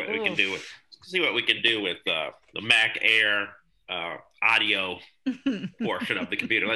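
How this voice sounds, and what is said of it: Usual voice. Nothing is said of it.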